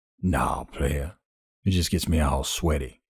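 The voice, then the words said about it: Deep-voiced character line. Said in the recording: “said the other in a deep voice.”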